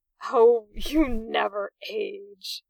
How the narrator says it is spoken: Arthur grunted

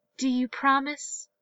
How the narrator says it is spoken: she asked

